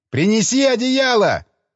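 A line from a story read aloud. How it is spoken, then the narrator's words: Shouted. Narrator (Russian): крикнул я ему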